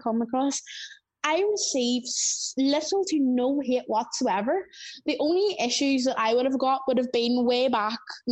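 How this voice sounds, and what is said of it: Strong Northern Irish accent. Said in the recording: “we have quite a strong accent here in Northern Ireland”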